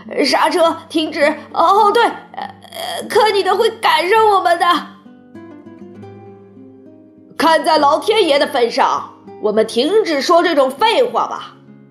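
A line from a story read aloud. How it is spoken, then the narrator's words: Old woman shouting. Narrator (Chinese): 约瑟夫奶奶叫道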